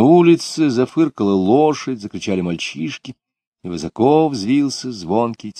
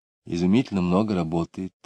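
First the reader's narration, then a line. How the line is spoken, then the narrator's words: Sighing. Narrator (Russian): сказала мать, вздохнув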